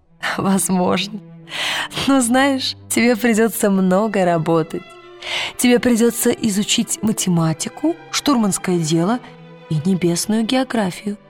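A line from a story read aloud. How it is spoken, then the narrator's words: Laughing. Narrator (Russian): Миссис Колтер засмеялась и сказала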